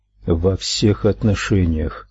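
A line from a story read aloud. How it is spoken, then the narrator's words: Quiet reply. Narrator (Russian): так же тихо ответил он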